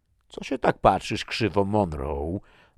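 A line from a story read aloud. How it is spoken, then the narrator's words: Growled. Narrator (Polish): warknął Carlsen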